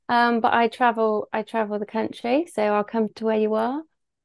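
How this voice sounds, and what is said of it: Bristol English accent. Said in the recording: “I live in Bristol, hence my beautiful accent.”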